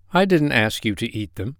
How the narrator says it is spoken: he said quietly

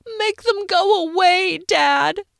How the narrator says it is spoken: wail

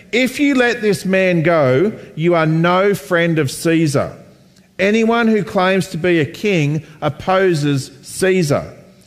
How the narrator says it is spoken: the Jewish leaders kept shouting

